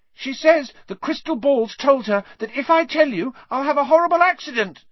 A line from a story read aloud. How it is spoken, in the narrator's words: squeaked Neville